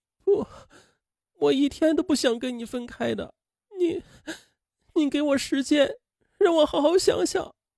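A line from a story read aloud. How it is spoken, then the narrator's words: Crying. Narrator (Chinese): 龙玉洁哭着说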